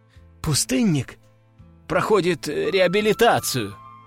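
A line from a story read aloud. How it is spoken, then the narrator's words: Uncertain answer. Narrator (Russian): неуверенно ответил первый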